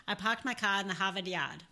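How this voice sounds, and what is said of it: Put-on Boston accent. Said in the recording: “Let me start with Boston, because that's easier.”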